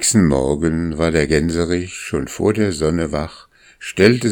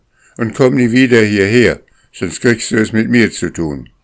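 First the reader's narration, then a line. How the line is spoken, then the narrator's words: Calling out. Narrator (German): rief er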